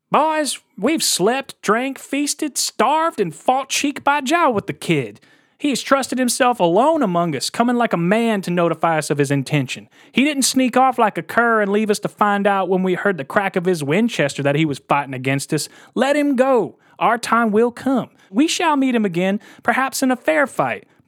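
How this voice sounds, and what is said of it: Impression of Jesse Evans. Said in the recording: “I'm going to do a Jesse Evans impression.”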